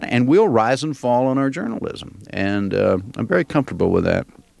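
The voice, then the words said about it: Mild Southern American accent. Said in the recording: “I'm hearing more of a Southern accent from you than I think I hear on the program”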